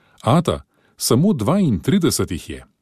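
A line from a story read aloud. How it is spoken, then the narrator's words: Shouting. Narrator (Slovenian): Patrick Burns je zakričal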